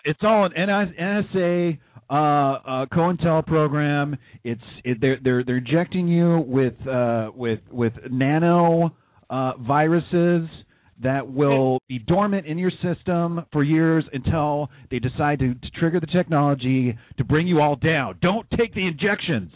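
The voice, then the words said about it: Imitates another person's voice. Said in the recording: “That was a pretty good impression, bro. ... I gotta take on Alex Jones, man. Beat him at his own game.”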